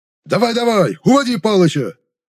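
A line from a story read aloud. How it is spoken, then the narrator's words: Bark. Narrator (Russian): рявкнул тезка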